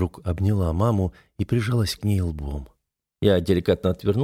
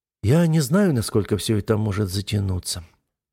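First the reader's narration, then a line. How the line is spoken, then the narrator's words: Sighing. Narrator (Russian): вздохнула Ойла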